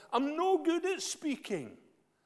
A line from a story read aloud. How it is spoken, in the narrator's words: pleaded